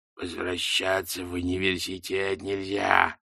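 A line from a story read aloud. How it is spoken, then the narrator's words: Muffled growl from box. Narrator (Russian): прорычала шляпа из глубины коробки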